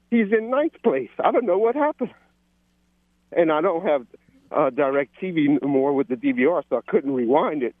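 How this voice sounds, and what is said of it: Out of breath while talking. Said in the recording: “I'm sorry I'm out of breath, but I'm exercising.”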